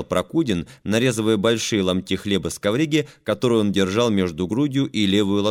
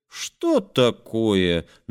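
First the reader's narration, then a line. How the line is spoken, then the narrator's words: Surprised singsong drawl. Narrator (Russian): нараспев и с удивлением протянул Костик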